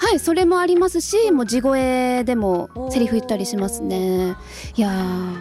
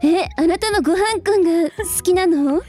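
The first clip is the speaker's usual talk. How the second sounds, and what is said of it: Imitates an anime character's voice. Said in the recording (Japanese): “ビーデルさんの真似 ... すごい似てる”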